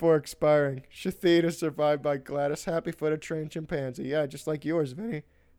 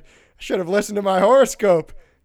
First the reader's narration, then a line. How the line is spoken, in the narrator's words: In Seattle, Washington, the deceased was reported to have shouted